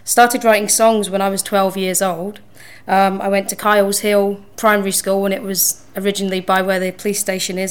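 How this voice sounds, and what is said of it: English accent. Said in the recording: “I have the English accent.”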